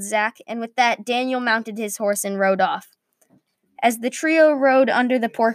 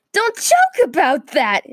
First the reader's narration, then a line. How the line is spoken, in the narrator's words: exclaimed Brody